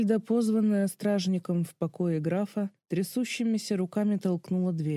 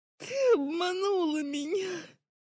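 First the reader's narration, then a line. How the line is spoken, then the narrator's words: Girl's hoarse rasp. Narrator (Russian): Хрипела девочка сквозь запекшиеся в корочке губы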